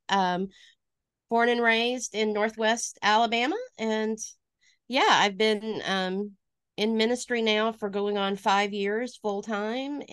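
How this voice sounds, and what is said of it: Slight Alabama Southern accent. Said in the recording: “I am originally from Alabama. You can probably hear that in my voice a little bit.”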